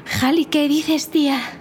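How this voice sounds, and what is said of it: Put-on Spain Spanish accent. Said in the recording (Spanish): “hubiera hablado con acento español de España”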